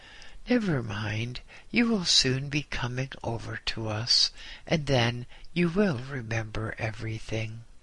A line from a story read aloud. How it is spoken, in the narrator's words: They laughed with me and said